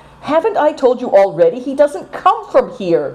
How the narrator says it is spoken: cried Seven Stars impatiently

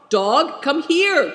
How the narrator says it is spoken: cried Big Tiger

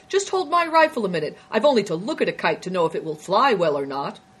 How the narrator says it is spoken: another soldier cried

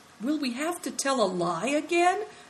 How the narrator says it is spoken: asked Christian anxiously

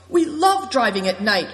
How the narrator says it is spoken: cried Christian

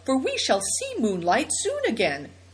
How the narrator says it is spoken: cried Seven Stars

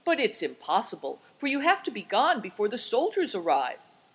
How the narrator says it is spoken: cried Seven Stars

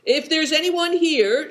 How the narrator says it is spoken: shouted Good Fortune

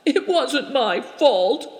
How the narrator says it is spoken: sobbed Turakina

